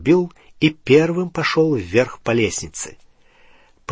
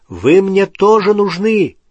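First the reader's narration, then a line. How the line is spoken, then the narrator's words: Shouted. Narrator (Russian): крикнул он Рону и Гермионе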